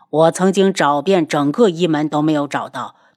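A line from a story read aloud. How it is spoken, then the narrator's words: Mocking laugh. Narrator (Chinese): 帝凤鸣嘲弄的笑起来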